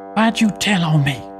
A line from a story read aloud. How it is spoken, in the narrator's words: he whispered